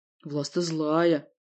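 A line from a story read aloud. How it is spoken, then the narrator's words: Moaned. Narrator (Russian): простонала Варвара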